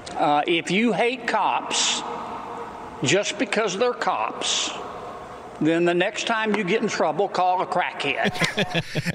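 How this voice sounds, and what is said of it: Louisiana Southern accent. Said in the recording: “that Louisiana Southern accent”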